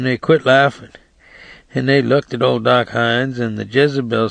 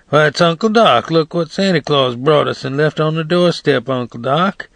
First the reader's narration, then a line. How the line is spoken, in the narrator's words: hollering